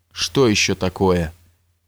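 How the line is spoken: Dejected question. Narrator (Russian): уныло спросил фаворит царя, которому теперь всякое горе было уже нипочем после этого страшного удара

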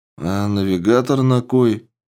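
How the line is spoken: Sleepy reply. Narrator (Russian): сонно откликнулся Мигель

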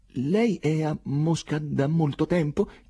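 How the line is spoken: Trembling voice. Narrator (Italian): chiese con voce tremante

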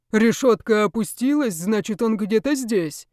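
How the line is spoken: Deep bass voice. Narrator (Russian): басом сказал кто-то из них, видимо, главный

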